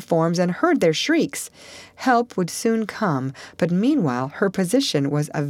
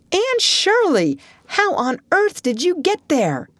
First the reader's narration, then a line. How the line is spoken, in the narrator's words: he exclaimed